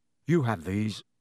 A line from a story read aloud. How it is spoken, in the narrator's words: Harry mumbled to her